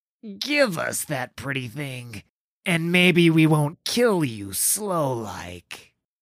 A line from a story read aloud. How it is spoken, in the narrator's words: the smallest one slurred loudly